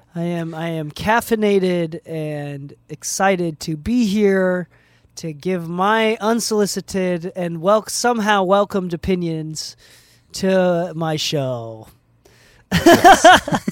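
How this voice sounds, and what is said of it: Flat monotone delivery. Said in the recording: “in the most monotone voice we've ever heard”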